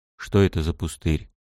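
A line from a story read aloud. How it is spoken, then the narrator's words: Whispered question. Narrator (Russian): Шепотом поинтересовался я у Джартутула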